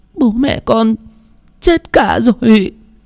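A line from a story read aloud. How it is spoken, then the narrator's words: Boy sobbing. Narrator (Vietnamese): Thằng bé òa khóc nức nở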